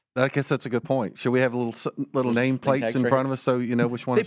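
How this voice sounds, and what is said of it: Southern twang accent. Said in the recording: “my southern twang”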